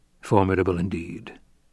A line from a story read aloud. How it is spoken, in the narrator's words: the Duke murmured